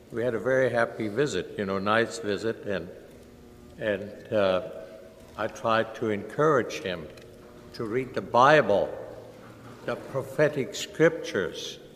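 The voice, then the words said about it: German accent. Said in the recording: “he noticed my German accent”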